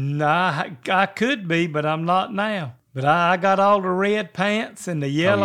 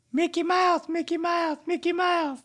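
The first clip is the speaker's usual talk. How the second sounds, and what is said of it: Mickey Mouse impression. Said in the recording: “let me hear your Mickey impression.”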